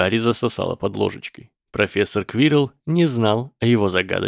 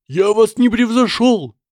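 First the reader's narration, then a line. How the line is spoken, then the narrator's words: Frantic scream. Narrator (Russian): истошно завопил мистер Гойл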